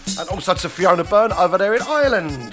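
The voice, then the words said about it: Poor put-on Irish accent. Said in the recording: “That was a poor Irish accent”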